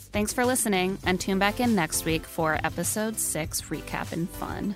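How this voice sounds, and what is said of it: Vocal fry, sick with a cold. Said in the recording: “go easy on my vocal fry this week. I swear I have a cold.”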